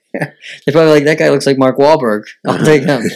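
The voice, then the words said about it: Massachusetts New England accent. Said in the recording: “your Massachusetts, your New Englander style dialect or accent.”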